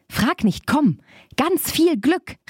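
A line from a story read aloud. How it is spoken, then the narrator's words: Called out. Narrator (German): rief Barbe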